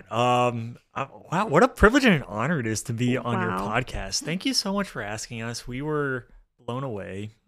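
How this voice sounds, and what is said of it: Soft, ASMR-like podcast voice. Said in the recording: “You guys like my podcast voice? ... I feel like this is like an ASMR video.”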